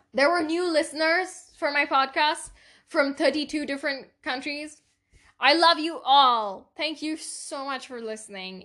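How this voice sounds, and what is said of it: Speaks with a foreign accent. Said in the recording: “my accent is getting better”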